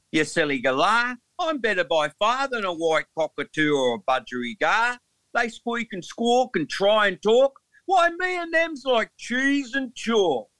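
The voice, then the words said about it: Put-on Australian accent. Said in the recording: “In an Aussie accent.”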